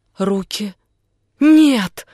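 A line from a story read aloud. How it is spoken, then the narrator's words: Cried out. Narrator (Russian): вскрикнула она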